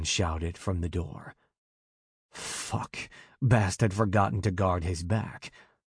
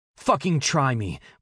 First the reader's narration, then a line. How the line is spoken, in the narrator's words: Bast barked